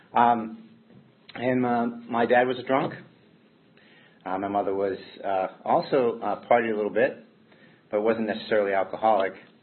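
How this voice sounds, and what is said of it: Mild Boston accent, somewhat flattened. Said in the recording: “I was born in Cambridge, Massachusetts. Those of you who can't pick up that accent, that's where I'm from. And it was kind of flattened out by Florida”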